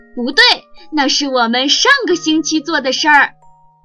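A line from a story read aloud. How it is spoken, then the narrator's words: Cheerful, smiling. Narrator (Chinese): 米米笑眯眯地说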